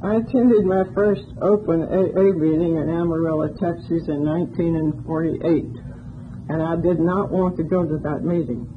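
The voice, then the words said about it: Southern Appalachian North Carolina accent. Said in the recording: “if you haven't picked up on the accent yet, I'm a hillbilly. I grew up in the hills of North Carolina”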